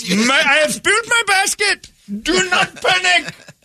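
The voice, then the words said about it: Put-on Indian accent. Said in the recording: “If you had an Indian run, "Do not panic. What's wrong?" ... It's the scariest accent”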